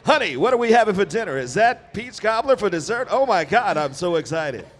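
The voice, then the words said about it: Old-fashioned Mid-Atlantic sitcom accent. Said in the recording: “1950 sitcoms. ... New Atlantic accent”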